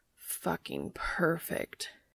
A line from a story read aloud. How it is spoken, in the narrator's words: Cass groans